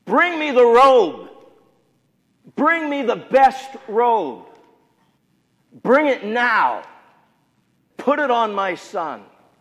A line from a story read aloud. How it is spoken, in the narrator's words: shouted over him to his servants